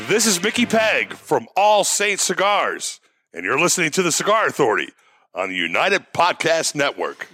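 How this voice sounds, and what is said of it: Big radio announcer voice. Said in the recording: “big radio voice”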